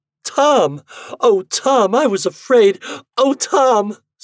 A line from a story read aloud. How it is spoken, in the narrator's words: sobbing, pressing her face against his shirt front